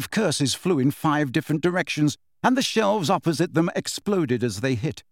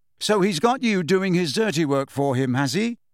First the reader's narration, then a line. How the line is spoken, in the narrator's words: said Harry